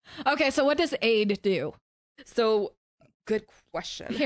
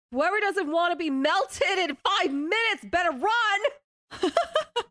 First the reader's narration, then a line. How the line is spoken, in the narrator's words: she's gonna start screaming